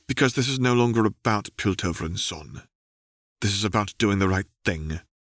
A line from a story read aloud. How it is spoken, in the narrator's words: Caitlin said coolly